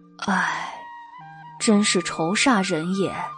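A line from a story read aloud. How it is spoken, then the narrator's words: Sighing, worried. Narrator (Chinese): 原耀叹了一口气，说道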